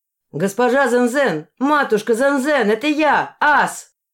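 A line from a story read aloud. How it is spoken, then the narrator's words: Shouting in Chinese dialect. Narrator (Russian): крикнул он на цзинь, в северном диалекте китайского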